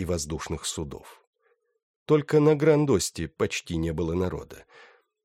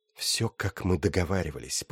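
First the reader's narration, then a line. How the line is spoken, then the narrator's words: Whisper. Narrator (Russian): прошептала любовница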